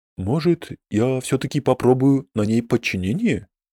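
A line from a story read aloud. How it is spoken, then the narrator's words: Whisper. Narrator (Russian): шепнул Танзену Фердуз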